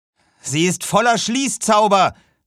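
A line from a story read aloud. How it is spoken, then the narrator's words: Called out. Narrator (German): rief Aaron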